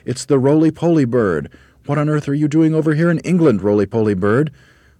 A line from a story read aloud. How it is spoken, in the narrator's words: cried all the monkeys together